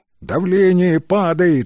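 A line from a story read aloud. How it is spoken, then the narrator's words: Shouted. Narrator (Russian): крикнул один из ординаторов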